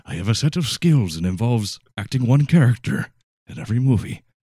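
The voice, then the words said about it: Liam Neeson impression, Irish accent. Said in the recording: “I can only do one accent. I can't get rid of my Irish accent at all.”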